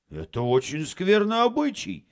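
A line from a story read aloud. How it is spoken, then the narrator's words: Exclaimed. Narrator (Russian): воскликнул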